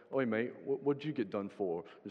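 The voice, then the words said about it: Attempted British accent, drifts Australian. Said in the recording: “When I try the British accent, I end somewhere in Australia.”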